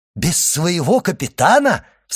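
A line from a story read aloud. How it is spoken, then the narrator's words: Joyful exclamation. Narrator (Russian): вскричал Дантес, и глаза его радостно заблестели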